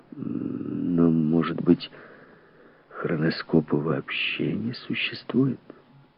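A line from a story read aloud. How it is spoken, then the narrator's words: Measured tone. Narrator (Russian): Он сказал размеренным тоном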